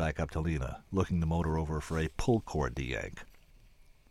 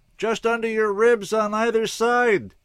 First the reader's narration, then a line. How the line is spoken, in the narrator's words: she yelled back